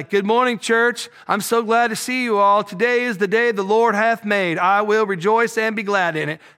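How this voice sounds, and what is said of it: Put-on Southern American accent. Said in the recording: “I don't know why I do a Southern accent”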